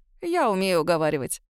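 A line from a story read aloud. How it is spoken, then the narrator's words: Snorting. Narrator (Russian): хмыкнул тот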